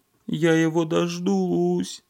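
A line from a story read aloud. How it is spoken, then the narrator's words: Sobbing. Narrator (Russian): всхлипывала Маня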